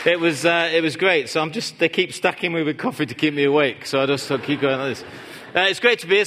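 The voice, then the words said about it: Northern English accent. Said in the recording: “accent. It's Northern England. If any of you from up there, Manchester area.”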